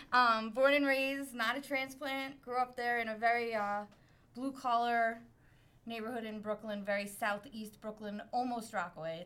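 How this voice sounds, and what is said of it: Brooklyn accent. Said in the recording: “I'm from Brooklyn. Usually people can tell immediately from the accent.”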